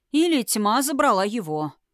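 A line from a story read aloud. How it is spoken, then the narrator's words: Prince's grunt. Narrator (Russian): хмыкнул князь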